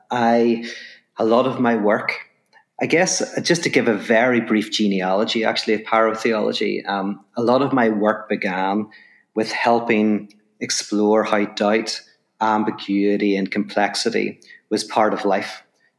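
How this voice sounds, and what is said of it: Irish accent. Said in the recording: “from my accent, people will know I'm from Ireland.”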